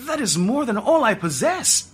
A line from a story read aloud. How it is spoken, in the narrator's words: Ajib exclaimed